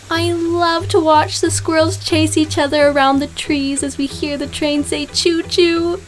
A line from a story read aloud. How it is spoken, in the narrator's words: Blake squealed to Virginia the conductor